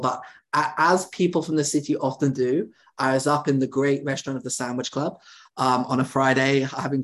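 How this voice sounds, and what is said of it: Chicago accent. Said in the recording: “my Chicago accent”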